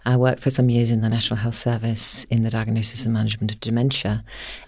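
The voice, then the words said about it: British accent. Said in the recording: “I trained in the UK, if you can't tell from my accent”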